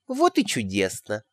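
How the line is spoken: Tender cooing. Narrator (Russian): проворковала нежным голоском, таким, каким обычно разговаривала со своими внуками и внучками

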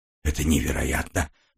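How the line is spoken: Mumble. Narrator (Russian): пробормотал я

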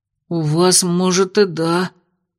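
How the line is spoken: Hoarse, from across room. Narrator (Russian): прохрипел из другого угла Миквой

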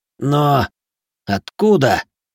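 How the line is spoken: Stunned breath. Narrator (Russian): потрясенно выдохнул Нори

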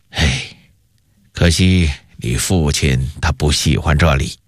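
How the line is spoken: Sighing, gentle. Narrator (Chinese): 永乐帝微笑着，叹了口气说道

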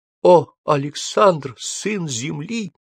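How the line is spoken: Weak unhappy voice. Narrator (Russian): слабым голосом произнесла несчастная Альдебаранка

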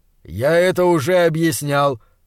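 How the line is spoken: Muffled. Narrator (Russian): глухо сказал доктор

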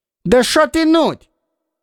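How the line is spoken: Shout after someone. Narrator (Russian): вслед ему крикнул

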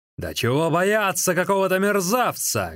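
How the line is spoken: Loud shout. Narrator (Russian): громко крикнул кто-то

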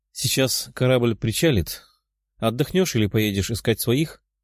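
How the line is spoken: Calm smiling woman asking. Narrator (Russian): спокойным голосом спросила улыбающаяся женщина

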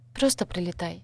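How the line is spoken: Very quiet request. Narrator (Russian): попросила очень тихо

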